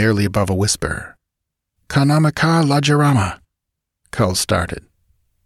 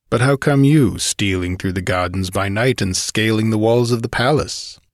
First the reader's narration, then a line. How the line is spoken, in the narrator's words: Brule sneered